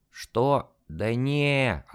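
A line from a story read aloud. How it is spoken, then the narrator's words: Sleepy voice. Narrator (Russian): ответил сонным голосом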